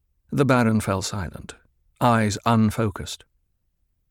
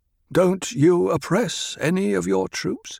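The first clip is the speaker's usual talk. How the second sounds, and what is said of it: Mild, gentle speaking voice. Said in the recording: “spoke in a mild voice”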